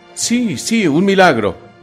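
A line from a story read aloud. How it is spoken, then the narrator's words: Crowd shouting. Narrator (Spanish): gritó la multitud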